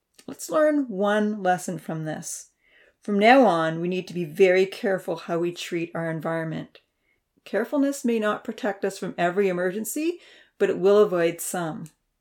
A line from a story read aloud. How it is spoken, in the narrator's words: Uncle Louie said firmly